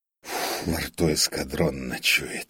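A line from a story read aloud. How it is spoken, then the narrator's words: Grumbling while spitting. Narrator (Russian): проворчал он, сплевывая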